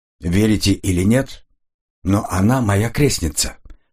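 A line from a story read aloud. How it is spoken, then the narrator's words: Plain. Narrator (Russian): сказал Коридон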